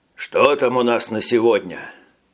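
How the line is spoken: Tired question. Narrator (Russian): устало спросил министр

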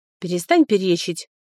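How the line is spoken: Cold, firm. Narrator (Russian): холодно заявил Колин, удивив меня своей твердостью

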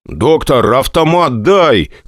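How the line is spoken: Shouting. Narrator (Russian): крикнул я санинструктору

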